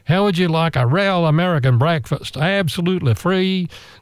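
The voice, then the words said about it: Good put-on American accent. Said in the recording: “That was a good American accent.”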